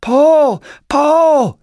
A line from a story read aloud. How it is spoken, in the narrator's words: Vern yell